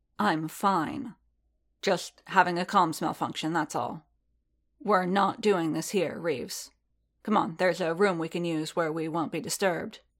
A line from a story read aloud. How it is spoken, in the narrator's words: Din said coolly